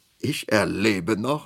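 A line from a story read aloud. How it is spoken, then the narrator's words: Laughing. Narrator (German): lachte Armgard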